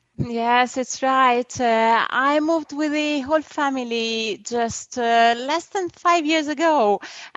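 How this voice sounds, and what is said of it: Strong Italian accent. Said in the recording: “you're from Italy ... I apologize for the accent. I know it's strong ... It's a very lovely accent.”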